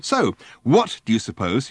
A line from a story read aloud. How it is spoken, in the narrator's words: he asked fiercely